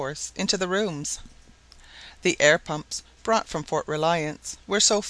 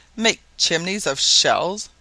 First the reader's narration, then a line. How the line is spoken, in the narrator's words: cried the carpenter